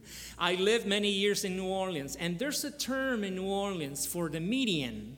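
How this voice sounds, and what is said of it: Nicaraguan-Louisiana accented English. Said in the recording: “I was born in Nicaragua, but I was raised in Louisiana. And I lived many years in New Orleans, you know, hence my funny, interesting accent”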